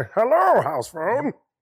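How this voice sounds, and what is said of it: Bane impression, croaky frog-like voice. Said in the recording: “in my Bane voice ... That's not how I imagine Bane ... That's a WB frog ... that's exactly what you sound like”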